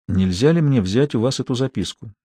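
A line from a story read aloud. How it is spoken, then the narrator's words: Quiet question. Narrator (Russian): тихо спросил Николя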